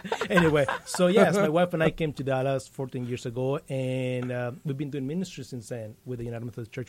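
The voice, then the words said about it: Slight Mexican Spanish accent. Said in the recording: “you're probably going to notice a little of an accent there. I'm from Mexico.”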